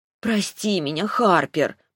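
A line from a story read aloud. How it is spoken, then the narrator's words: Sincere near-whisper. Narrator (Russian): почти прошептала более искренне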